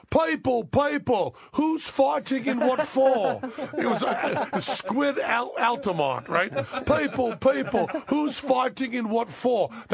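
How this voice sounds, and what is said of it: Imitates a rock singer's voice. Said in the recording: “my Mick Jagger impersonation”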